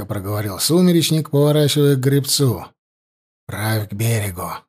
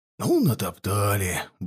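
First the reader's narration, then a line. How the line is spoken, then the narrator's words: Muttering. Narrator (Russian): бормотал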